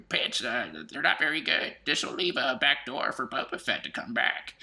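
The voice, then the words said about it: Imitates another person's voice. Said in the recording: “that's my George Lucas impersonation”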